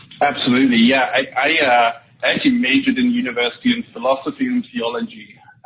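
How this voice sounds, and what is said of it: English accent. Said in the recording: “as you can tell from the accent, I started out my sales career in England”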